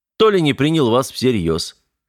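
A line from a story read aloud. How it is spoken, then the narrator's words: Snorting. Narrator (Russian): хмыкнул Кузьмин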